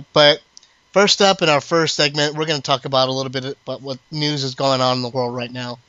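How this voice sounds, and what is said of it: Congested voice from a cold. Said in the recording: “I've got a bit of a cold.”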